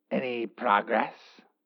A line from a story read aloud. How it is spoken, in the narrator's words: The boss's distinctive raspy voice